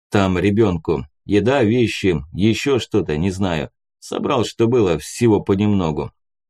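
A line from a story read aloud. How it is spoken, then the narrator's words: Dry curt reply. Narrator (Russian): сухо ответил прапор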